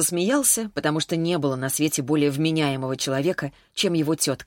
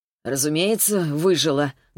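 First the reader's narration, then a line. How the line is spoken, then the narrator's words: Gloomy. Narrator (Russian): добавила она мрачно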